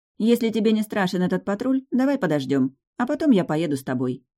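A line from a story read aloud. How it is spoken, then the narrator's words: Exaggeratedly calm. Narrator (Russian): предложила Кира преувеличенно спокойно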